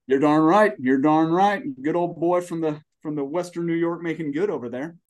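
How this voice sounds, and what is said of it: Sudden Southern American accent. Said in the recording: “did your accent just change? ... Yes, it did. ... that Southern accent”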